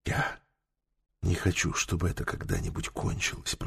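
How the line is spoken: Whisper. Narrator (Russian): прошептала она наконец

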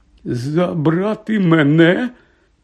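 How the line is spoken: Trembling question. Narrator (Ukrainian): тремтячим голосом перепитав Гегрід

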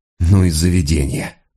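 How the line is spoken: Sigh. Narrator (Russian): вздохнул он

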